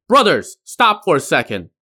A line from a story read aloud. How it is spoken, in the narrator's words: he shouted to his comrades